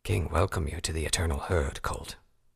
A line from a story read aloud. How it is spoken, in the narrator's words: Redbrand said softly to the now dead Pegasus